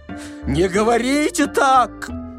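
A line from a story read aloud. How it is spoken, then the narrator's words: Frightened shout. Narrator (Russian): закричал перепугавшийся Паниковский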